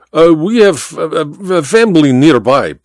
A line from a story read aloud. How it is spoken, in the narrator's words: Baba stammered